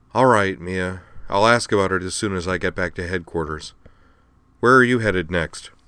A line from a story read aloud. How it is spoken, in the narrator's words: sighed and said